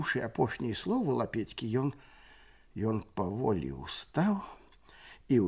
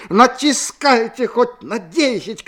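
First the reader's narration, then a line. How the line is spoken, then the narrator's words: Shouting. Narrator (Russian): крычаў ён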